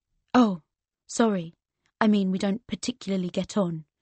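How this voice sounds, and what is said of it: Posh accent. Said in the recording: “I put on his posh accent.”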